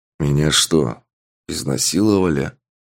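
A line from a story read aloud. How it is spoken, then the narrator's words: Muttering. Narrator (Russian): Пробормотал мужчина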